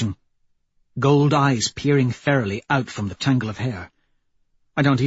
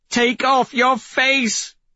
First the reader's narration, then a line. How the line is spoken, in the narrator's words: She screams